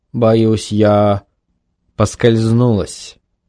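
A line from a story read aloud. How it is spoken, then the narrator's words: Calm remark. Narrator (Russian): спокойно заметила мисс Сидли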